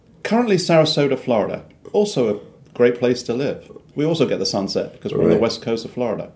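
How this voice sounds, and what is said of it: British London accent. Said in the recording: “you have an accent ... British? ... I'm a Londoner, born and bred in London”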